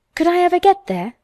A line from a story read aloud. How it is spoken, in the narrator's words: asked Mary wistfully